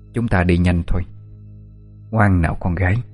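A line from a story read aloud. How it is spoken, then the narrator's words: Quiet, eerie with smile. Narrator (Vietnamese): bà ta nở một nụ cười kỳ quái, rồi nhỏ giọng nói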